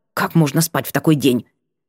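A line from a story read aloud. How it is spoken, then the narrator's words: Girl's snorting mutter. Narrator (Russian): девчонка фыркнула, пробормотав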